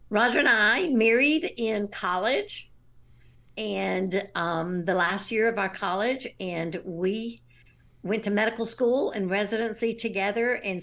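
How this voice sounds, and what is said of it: Slight Southern American accent. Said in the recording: “you might detect a Southern accent, maybe just a little bit.”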